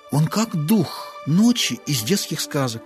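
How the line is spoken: Excited whisper. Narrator (Russian): взволнованно шепнула Чара

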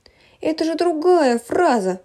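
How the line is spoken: Exclaiming. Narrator (Russian): воскликнула Ирина

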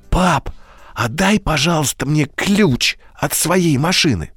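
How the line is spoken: Whisper. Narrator (Russian): он шепотом сказал

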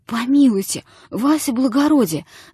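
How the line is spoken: Moaning. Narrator (Russian): застонал было жид

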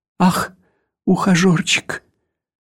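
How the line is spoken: Sobbing. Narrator (Russian): всхлипывала она

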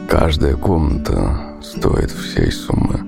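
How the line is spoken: Quiet. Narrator (Russian): Прупада тихо сказал

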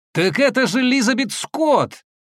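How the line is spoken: Sudden shout. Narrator (Russian): я вдруг закричал

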